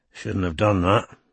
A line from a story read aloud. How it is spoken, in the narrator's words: said Strike in an undertone to Robin